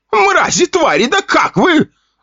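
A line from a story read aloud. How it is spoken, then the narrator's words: Shrieking. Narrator (Russian): завизжал Попов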